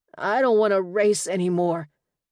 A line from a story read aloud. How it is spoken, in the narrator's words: Jaden said thickly